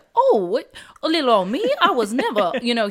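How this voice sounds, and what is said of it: Put-on Southern Belle accent. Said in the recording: “you just did that Southern Belle accent”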